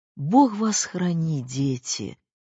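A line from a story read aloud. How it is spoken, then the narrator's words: Sighed farewell. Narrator (Russian): вздохнула она на прощание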